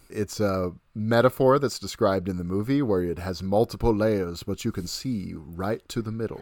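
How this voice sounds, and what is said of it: Imitates a film detective character's voice. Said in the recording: “my Benoit Blanc impression”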